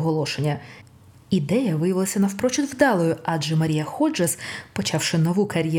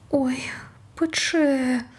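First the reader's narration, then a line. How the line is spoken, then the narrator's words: Pained groan, fallen man. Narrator (Ukrainian): простогнав полеглий Янгел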